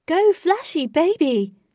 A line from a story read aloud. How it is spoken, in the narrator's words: shouted one man